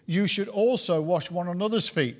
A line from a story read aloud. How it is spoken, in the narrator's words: says Jesus